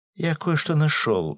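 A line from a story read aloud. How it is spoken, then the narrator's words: Joyful announcement. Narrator (Russian): радостно сообщил Гензо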